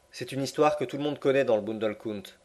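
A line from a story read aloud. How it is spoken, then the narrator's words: Plain answer. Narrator (French): répondit le guide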